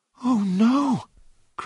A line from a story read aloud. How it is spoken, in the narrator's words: cried John